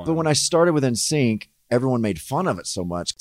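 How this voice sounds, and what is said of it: Subtle, gentlemanly Southern accent. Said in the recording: “it's a very nice accent. ... It sounds gentlemanly ... you have like a subtle one ... a little Southern accent”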